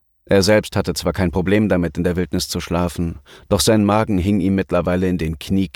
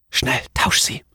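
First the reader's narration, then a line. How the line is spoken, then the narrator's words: Whispered. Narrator (German): flüsterte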